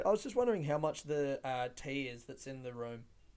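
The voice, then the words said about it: Very serious, polite phone voice. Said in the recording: “Oh, very serious phone voice.”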